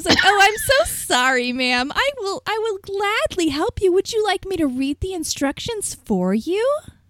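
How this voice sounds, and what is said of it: Overly sweet, sarcastic customer-service voice. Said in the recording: “my voice just kept getting sweeter”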